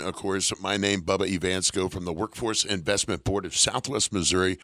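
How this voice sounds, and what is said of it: Rough voice, sounds unwell. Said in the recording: “apologize for my voice, a little under the weather”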